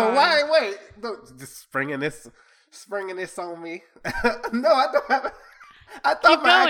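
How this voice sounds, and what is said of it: Usual voice. Nothing is said of it.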